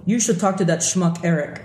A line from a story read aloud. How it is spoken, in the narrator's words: interrupted a thickly accented voice